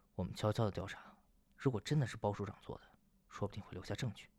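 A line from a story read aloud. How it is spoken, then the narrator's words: Low explaining. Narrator (Chinese): 陆和欢低声解释道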